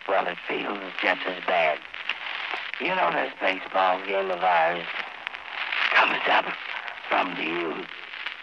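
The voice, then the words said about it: Weak, strained, hoarse voice. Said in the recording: “You know how bad my voice sounds.”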